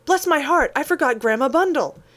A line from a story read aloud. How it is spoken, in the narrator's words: Lorry cried out